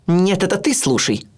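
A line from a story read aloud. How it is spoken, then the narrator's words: Barked. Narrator (Russian): рявкнула она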